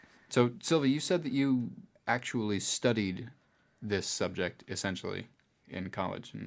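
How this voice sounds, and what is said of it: Usual voice. Nothing is said of it.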